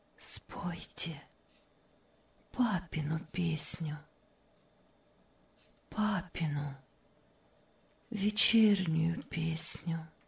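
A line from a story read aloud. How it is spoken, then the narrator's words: Barely audible request. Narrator (Russian): чуть слышно попросила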